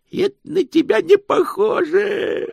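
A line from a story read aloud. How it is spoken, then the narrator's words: Joyful. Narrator (Russian): радостно сказал Грош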